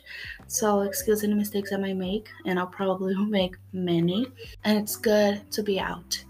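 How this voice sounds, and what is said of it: Non-native English accent. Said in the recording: “you guys can tell by my accent that English is not my first language”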